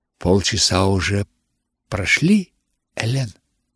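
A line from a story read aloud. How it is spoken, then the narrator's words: Whisper in ear. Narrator (Russian): наконец прошептала она мне на ухо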